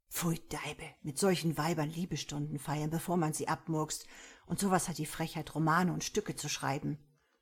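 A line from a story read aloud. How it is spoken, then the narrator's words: Joking writer whispering. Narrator (German): Ein als Witzbold bekannter Schriftsteller flüsterte einer berühmten Schauspielerin zu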